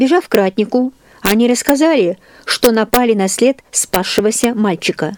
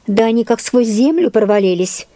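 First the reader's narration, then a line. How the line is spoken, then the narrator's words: Grumbling to himself. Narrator (Russian): ворчал он про себя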